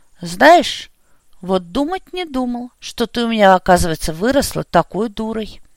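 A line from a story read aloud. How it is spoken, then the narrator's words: Unexpectedly sad conclusion. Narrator (Russian): Неожиданно грустно заключил Бестужев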